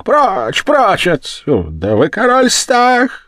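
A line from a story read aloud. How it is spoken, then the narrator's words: Woman screaming. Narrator (Russian): Женщина кричала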